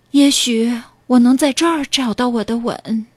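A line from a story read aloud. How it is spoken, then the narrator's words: Sighing. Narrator (Chinese): 他叹着气说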